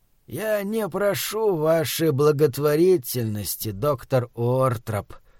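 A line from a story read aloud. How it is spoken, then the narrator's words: Wheezing rasp. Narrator (Russian): прохрипел Скряга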